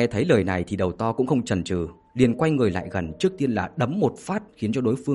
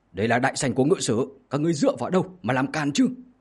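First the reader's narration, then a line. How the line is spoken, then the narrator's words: Loud shout. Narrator (Vietnamese): có người lớn tiếng hét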